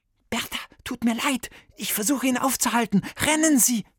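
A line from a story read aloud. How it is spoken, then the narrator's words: Hissed. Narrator (German): zischte Viktor Bertha zu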